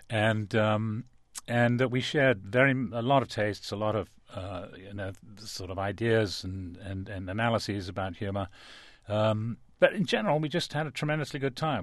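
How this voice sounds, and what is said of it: Speaks with a noticeable accent. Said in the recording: “despite our obviously very different backgrounds, as you can probably tell from my accent”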